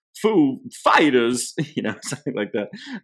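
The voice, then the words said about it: Christopher Walken impression. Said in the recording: “Good impression”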